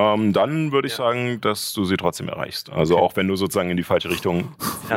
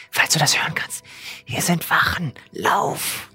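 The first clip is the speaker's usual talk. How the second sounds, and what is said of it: Whispered speech. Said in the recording (German): “Ich würde ihr einfach zuflüstern. ... nachdem du das äh, geflüstert hast”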